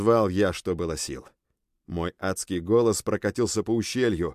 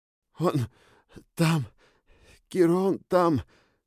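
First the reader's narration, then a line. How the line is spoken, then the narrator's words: Hoarse, breathless speech. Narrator (Russian): Хрипло дыша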